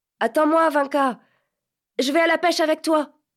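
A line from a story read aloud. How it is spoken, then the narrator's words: Shout. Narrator (French): cria-t-il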